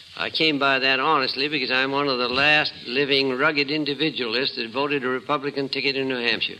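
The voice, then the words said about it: New England accent. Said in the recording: “a Chicago businessman with a New England accent.”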